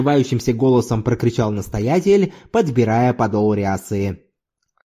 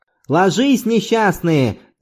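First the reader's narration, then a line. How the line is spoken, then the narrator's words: Shouting while running. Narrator (Russian): закричал, убегая Зорбас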